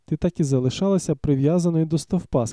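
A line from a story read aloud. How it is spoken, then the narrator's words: Plain. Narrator (Ukrainian): сказав Рендом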